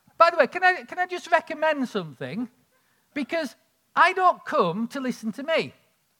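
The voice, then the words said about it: Northern English accent. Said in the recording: “my accent ... I'm sort of like this northern idiot”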